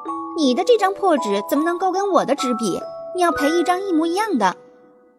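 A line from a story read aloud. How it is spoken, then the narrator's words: Insistent clamoring. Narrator (Chinese): 夏美美…不依不饶地嚷嚷道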